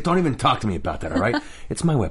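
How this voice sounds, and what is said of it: Gruff low Rocket Raccoon impression. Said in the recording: “Can you do a Rocket voice? ... he's Bradley Cooper. So he's just kind of gruff and he's down here and he's excited”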